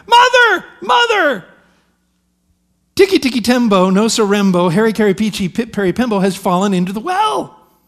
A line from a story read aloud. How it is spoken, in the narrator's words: Ping ran to the house shouting